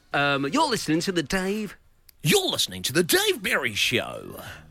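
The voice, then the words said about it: Imitates a radio host's voice. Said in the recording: “Can you do, like, the Dave Berry... Dave Berry's doing a breakfast show... do, like...”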